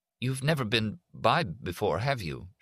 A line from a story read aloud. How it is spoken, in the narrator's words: She said, now rattled and stammering